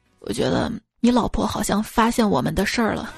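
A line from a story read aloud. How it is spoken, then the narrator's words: Low voice. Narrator (Chinese): 老王低声说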